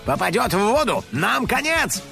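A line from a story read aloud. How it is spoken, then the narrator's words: Shout. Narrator (Russian): крикнул детектив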